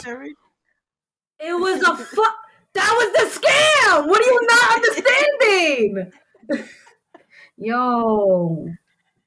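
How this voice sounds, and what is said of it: Yelling angrily. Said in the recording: “Why are you yelling?”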